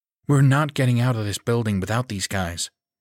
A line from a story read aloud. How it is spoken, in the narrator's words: she replied coldly